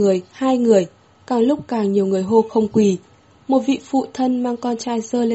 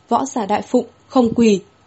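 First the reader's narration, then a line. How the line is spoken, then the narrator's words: Raised, loud voice. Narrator (Vietnamese): Vương Thủ Phụ cất cao giọng nói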